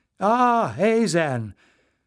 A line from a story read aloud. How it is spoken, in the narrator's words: She smiled welcome